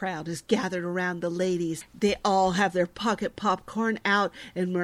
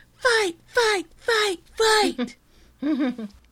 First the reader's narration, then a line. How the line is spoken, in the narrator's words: sounds of kids yelling